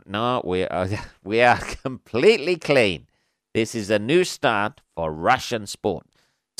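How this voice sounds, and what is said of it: Poor put-on Russian accent. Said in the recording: “Terrible Russian accent”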